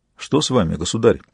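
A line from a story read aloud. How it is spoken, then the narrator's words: Quiet question. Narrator (Russian): тихо спросил отец Грук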